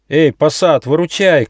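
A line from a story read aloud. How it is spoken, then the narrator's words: Shouting. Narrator (Russian): крикнул Нюфа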